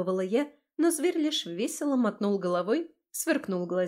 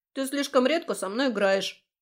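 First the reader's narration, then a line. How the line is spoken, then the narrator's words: Snorting. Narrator (Russian): фыркнул он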